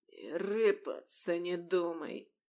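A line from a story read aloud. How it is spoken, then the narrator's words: Hoarse rasp. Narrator (Russian): просипел он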